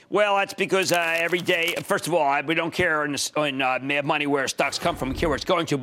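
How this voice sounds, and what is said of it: Distinctive regional accent. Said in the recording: “I love listening to your accent.”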